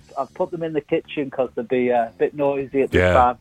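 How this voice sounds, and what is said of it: Liverpool accent. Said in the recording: “are you a Liverpudlian? ... You have my favourite accent in the world.”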